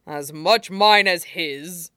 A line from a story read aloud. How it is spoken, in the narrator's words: Niaming Tui grumbled, old grievances effectively distracting him